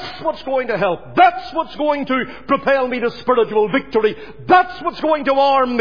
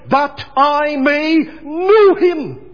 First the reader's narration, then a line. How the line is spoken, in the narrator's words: Paul the Apostle he cried